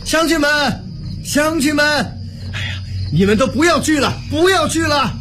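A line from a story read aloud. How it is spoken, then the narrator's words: Loud shout. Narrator (Chinese): 刘景……高声喊道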